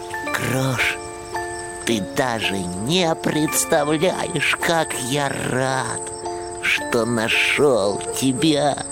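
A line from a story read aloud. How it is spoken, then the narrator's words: Joyful whisper. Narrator (Russian): ежик вдруг прошептал радостно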